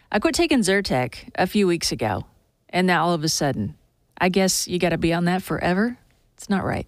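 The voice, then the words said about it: Strained, fading voice. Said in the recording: “Off and on, losing my voice today, the allergies.”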